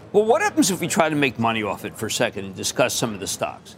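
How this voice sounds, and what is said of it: Philadelphia accent. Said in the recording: “that damn Philadelphia accent”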